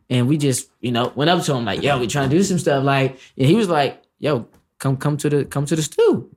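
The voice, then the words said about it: Slight Washington DC accent. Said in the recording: “I could hear a little bit of accent. ... I'm from Northeast DC.”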